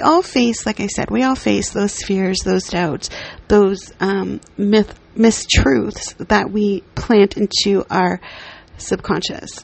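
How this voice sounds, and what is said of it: Slightly raspy voice. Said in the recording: “if my voice is kind of like raspy.”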